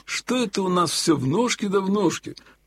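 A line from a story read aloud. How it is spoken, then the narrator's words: Sudden grumble. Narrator (Russian): вдруг пробурчал Елагин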